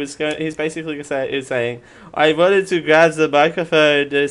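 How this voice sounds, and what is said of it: Usual voice. Nothing is said of it.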